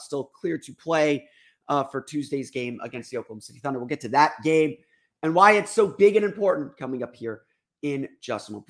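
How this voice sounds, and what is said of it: Sick-sounding voice. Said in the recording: “If you can't tell by my voice, a little bit under the weather today”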